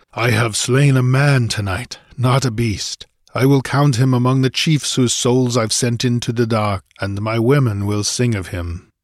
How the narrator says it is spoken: the Cimmerian panted

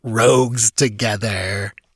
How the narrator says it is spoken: His voice rang with its accustomed mockery

